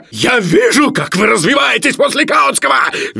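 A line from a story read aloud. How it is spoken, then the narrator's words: Shrill shout. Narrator (Russian): визгливо и пожелтев крикнул Филипп Филиппович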